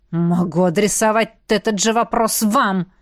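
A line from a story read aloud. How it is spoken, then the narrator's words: Clipped, through teeth. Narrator (Russian): процедил герцог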